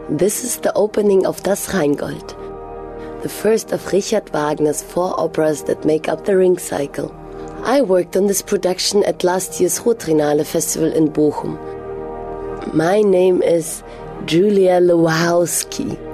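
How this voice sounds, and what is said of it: Fake foreign accent. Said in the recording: “enough with the fake accent.”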